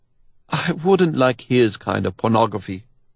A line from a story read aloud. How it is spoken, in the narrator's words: Rudy answers evenly